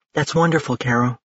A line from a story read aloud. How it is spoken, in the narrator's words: Mio said softly